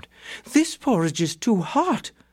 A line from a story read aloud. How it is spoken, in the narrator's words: she exclaimed